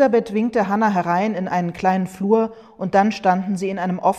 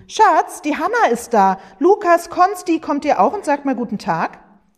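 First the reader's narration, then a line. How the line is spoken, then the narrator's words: Called out. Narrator (German): rief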